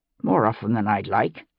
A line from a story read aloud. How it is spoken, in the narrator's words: Locke replied grimly